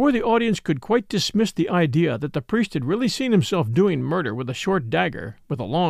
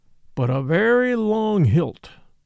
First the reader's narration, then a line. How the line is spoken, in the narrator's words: assented Brown, nodding solemnly like an owl